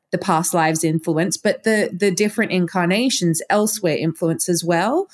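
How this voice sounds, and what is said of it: Australian accent. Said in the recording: “I still have an Australian accent”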